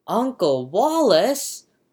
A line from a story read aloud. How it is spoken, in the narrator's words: whisper shrieks Jane